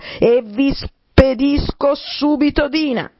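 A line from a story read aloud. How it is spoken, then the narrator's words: Shouted at full breath. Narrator (Italian): gridò Alice con quanto fiato aveva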